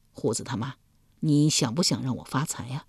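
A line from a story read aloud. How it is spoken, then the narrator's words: Soft question. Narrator (Chinese): 易牙柔声问道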